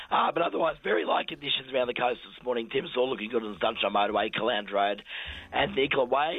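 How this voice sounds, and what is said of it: Hoarse, croaky voice. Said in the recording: “Excuse my croakiness... You sound terrible... I've woken up with a Rod Stewart voice this morning... a bit Bonnie Tyler”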